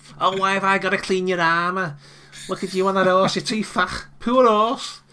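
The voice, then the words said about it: Whiny put-on Scouse accent. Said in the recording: “my Scouse accent ... a really whiny”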